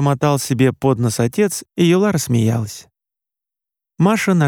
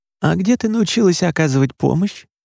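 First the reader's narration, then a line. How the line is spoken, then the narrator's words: Very hoarse voice. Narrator (Russian): Голос Юлы звучал еще более сипло, чем обычно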